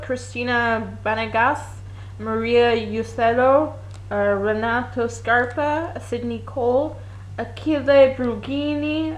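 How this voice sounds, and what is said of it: Exaggerated Italian accent on names. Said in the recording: “heightened Italian accent”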